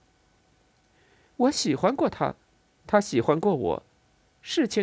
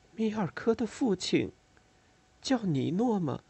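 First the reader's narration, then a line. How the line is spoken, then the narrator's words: Quiet, hesitant question. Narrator (Chinese): 我沉默了一会儿，最后小声问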